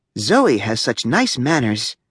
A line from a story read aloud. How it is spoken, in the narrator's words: whispered Mrs